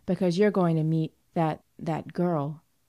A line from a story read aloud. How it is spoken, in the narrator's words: said evenly